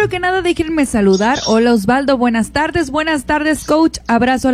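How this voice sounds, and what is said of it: Usual voice. Nothing is said of it.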